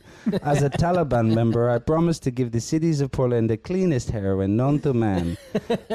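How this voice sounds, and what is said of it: Put-on foreign accent, poorly kept. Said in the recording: “I can't even keep the accent.”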